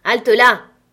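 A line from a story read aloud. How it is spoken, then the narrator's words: Shout. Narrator (French): cria Silver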